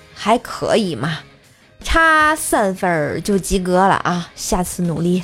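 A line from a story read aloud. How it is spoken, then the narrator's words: Slow, calm. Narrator (Chinese): 硕爸缓缓的说道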